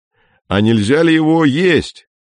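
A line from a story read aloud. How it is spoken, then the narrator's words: Shout from a tent. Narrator (Russian): крикнул Фокин из палатки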